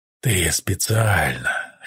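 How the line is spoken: Hoarse question. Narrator (Russian): хрипло спросил Тай, не смело

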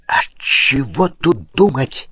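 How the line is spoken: Angry whisper. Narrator (Russian): сердитым шепотом вмешался все прекрасно слышавший барон

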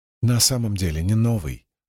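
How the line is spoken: Plain. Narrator (Russian): ответила Сил

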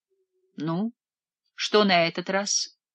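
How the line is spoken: Even voice. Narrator (Russian): осведомилась Жанна своим ровным голосом

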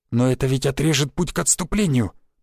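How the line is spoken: Mutter, abruptly cut off. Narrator (Russian): пробормотал Васян и осекся под тяжелым взглядом Шишакова

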